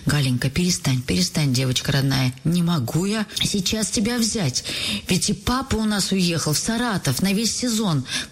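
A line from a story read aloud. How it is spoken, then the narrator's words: Quiet, tender, tearful, mother. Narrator (Russian): Мама заплакала тоже, но, вытирая поспешно глаза и себе, и Гале, мама тихим, ласковым голосом говорит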